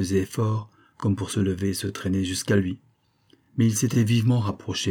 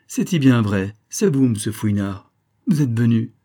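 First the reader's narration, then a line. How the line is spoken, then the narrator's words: Exclaiming. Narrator (French): s'écria-t-elle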